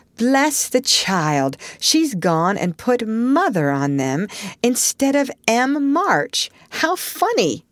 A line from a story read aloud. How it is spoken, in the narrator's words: cried Jo